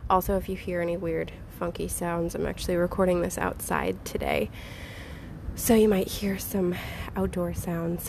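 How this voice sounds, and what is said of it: Slightly nasal, congested voice. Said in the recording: “I apologize for how I sound. I'm actually still getting over an illness, so I sound a little nasally”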